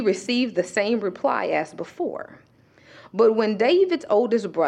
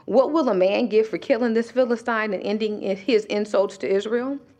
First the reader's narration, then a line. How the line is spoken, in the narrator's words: he asked them